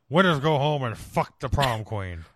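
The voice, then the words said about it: Imitates another person's voice. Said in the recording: “can you do a good Sean Connery accent”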